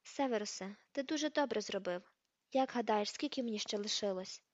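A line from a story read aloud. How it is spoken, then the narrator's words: Casual, matter-of-fact question. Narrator (Ukrainian): Дамблдор спитав це буденним тоном, ніби цікавився прогнозом погоди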